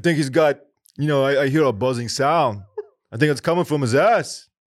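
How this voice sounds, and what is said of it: Imitates another person's voice. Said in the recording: “really, really good Christopher Walken impression ... Christopher Walken”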